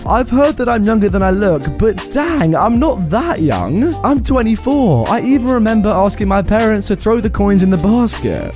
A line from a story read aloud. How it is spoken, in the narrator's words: I say as I continue to laugh